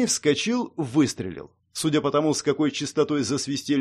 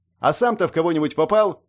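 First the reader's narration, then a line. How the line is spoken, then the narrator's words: Snapping back. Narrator (Russian): огрызнулся я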